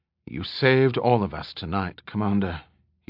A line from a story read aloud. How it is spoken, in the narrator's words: he said quietly